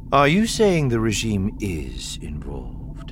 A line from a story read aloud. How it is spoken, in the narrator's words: Thrawn asked coolly